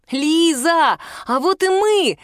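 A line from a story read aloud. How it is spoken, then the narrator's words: Shouting. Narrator (Russian): закричал он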